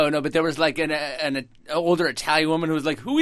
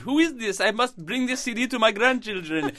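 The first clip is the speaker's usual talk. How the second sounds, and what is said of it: Put-on Russian-Italian accent. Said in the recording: “why was she speaking with a Russian accent? ... Russian-Italian.”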